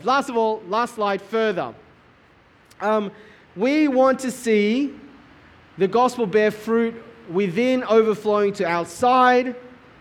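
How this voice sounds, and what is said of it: Yelling over loud rain. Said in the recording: “I'm kind of yelling here ... losing my voice”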